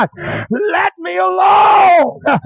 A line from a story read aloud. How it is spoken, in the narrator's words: in a whimpering cry